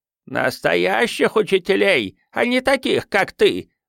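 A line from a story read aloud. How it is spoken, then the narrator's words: Old woman screaming. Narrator (Russian): завопила старуха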